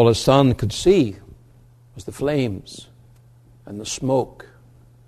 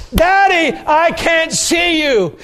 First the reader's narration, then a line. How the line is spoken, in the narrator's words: he yelled back